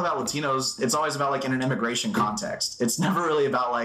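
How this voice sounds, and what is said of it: Usual voice. Nothing is said of it.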